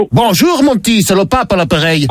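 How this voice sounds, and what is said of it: Put-on Belgian accent. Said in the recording (French): “pourquoi cet accent ? C'est parce que je suis le pape Léon de Bruxelles.”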